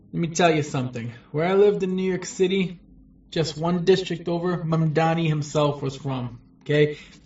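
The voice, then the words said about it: American accent. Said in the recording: “It does sound like he has an American accent.”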